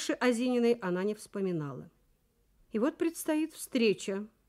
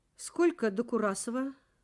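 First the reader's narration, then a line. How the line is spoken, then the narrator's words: Plain. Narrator (Russian): спросила Галина Сергеевна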